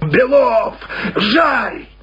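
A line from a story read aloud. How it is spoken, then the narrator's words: Drunken furious shout. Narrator (Russian): крикнул пьяным, бешеным голосом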